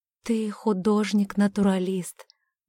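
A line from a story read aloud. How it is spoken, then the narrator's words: Gentle reminder. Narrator (Russian): мягко напомнила она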